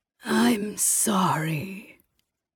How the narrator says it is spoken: came the man's raspy voice, his vocal cords sounding like they'd been sanded raw

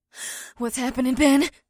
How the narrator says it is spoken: Batari gasped

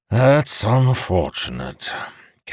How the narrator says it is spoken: Calamir said with a sigh

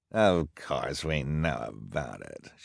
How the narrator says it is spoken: she snarled

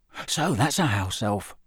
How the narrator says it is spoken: Ron muttered

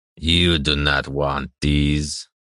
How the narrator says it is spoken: the necklace peddler said, his voice gravelly and slightly wheezy with age

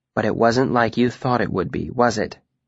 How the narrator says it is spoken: Denna said, more gently this time

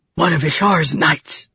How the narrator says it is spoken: the madman whispered

